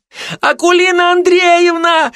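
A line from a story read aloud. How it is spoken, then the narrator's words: Distant shriek. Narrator (Russian): завизжали где-то далеко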